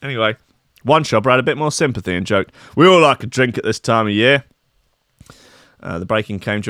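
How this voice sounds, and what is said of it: Usual voice. Nothing is said of it.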